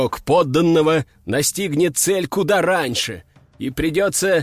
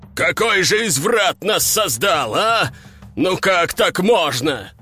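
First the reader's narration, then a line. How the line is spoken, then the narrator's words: Roaring. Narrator (Russian): взревел король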